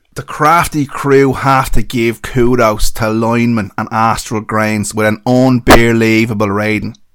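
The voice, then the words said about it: Put-on Dublin accent. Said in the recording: “Do you want a north side or a south side Dublin accent? ... I know Dublin people who sound like that”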